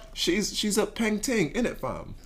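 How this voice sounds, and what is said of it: Mediocre put-on British accent. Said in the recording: “I'm gonna try to use a British accent too ... I'd give you maybe a 6 out of 10. It's definitely not the worst that an American has said.”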